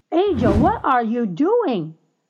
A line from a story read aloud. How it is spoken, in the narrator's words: her dad cried out in alarm